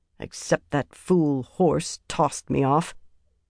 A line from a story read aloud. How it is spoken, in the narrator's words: Avienda muttered